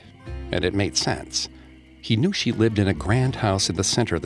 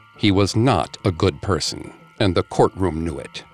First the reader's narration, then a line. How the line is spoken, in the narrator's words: she said firmly